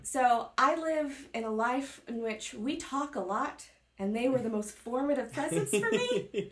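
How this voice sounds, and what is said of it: Texan and Oklahoman-influenced accent. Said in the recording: “That explains the accent. ... My parents are Texan and Okie. ... And they have accents. ... So I have an accent.”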